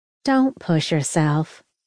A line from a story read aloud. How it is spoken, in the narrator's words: Cookie said in a soothing, motherly voice